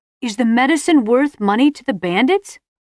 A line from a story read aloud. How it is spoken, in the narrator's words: she shouted the question to Simon above the roar of the river